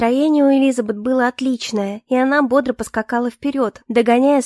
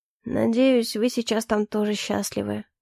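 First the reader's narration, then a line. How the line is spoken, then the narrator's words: Quiet mutter under breath. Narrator (Russian): тихо пробормотал Эльфорте себе под нос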